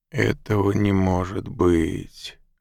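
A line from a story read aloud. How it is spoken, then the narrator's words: Groaning. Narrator (Russian): простонал Мак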